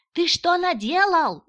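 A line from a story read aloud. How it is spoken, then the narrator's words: Screaming. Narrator (Russian): завопила та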